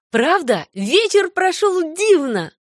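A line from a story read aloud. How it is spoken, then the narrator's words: Exclamation. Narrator (Russian): воскликнула Джейн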